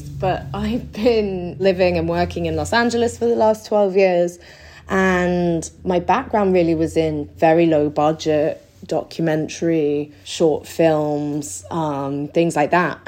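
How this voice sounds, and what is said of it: English accent. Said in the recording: “I'm from England, obviously. Hopefully I still have my accent intact ... You do.”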